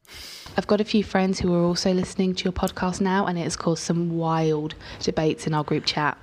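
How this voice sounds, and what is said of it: British accent. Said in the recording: “accent. British is better.”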